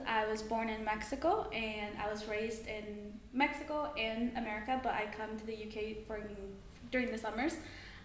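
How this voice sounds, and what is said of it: American accent. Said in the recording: “your accent's really nice ... America, I've always loved the American accent.”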